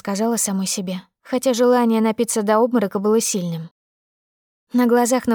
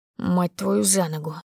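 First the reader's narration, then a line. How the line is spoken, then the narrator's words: Through gritted teeth. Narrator (Russian): Процедил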